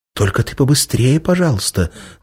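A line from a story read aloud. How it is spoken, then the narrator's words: Anxious whisper. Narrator (Russian): взволнованно шептала Иволга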